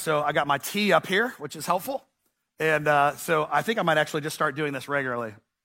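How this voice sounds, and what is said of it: Voice of someone recovering from illness. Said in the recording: “You can probably tell by my voice that I'm getting over some sickness right now”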